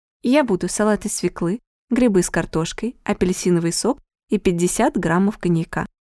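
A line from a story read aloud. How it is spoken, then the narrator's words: Quiet and polite. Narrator (Russian): говорила Анна негромко и вежливо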